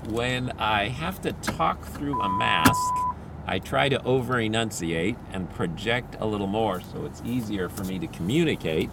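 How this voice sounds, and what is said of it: Slightly worn-out, tired voice. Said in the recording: “My voice is a little bit, my voice is a little bit worn out today ... it starts to wear down”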